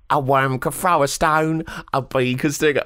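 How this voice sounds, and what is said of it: Terrible Cockney accent as Gavroche. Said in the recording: “There's a terrible Cockney accent.”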